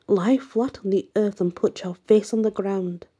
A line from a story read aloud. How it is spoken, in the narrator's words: cried the priest